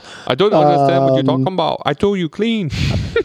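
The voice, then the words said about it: Put-on Chinese accent. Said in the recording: “That sounded like a Chinese accent. ... If you're going to throw an accent out there, you got to be crisp.”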